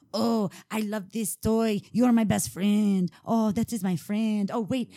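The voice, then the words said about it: Weird accented creepy character voice. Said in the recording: “He's a weird voice. But he's like, got an accent.”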